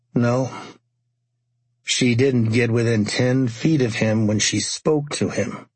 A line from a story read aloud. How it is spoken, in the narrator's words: he said slowly